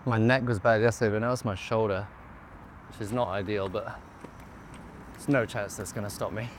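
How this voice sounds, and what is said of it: Slightly out of breath. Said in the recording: “I'm a little bit out of breath because of the stairs”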